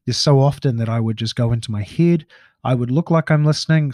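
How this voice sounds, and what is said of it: New Zealand accent. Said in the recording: “D-E-C-K, Kiwi accent. It's a bit hard to work that one out.”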